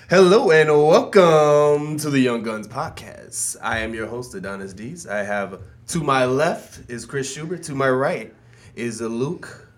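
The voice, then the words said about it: Put-on radio announcer voice. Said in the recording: “That's my radio voice.”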